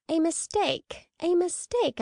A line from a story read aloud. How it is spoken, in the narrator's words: I exclaimed